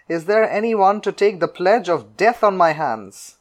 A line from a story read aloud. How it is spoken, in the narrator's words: called out